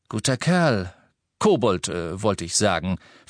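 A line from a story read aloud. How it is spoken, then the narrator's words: Hasty self-correction. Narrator (German): verbesserte Ted sich hastig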